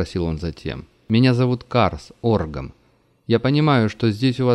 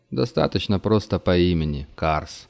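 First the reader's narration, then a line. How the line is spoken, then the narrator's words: Grumbling mutter. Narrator (Russian): пробурчал пришелец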